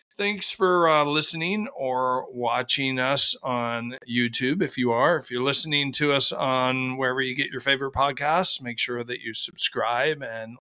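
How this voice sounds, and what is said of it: Slightly hoarse voice. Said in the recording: “my voice is a little hoarse ... I've got a cold and I lost my voice ... So sound a little bit different”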